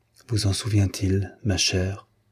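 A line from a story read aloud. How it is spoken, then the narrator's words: Whispered. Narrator (French): dit-il tout bas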